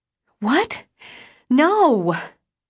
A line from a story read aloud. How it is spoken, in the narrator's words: I yelled, gasping for breath